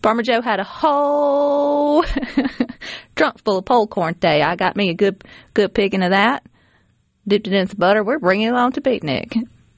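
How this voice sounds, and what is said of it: Put-on Southern US accent. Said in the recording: “they sound silly with a Southern accent.”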